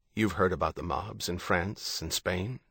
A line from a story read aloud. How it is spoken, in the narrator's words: John said